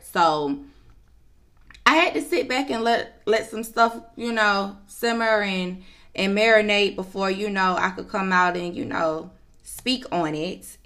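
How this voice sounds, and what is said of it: Slightly raspy voice. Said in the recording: “Excuse my voice. It's a little raspy”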